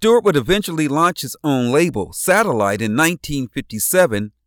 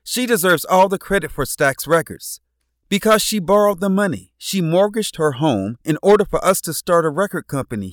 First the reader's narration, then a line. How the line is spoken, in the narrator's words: he said